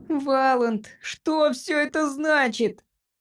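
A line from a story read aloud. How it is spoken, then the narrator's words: Squeaky voice. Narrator (Russian): пропищал Джимпер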